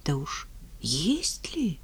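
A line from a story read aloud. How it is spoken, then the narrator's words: Timid question. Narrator (Russian): робко спрашивают монаха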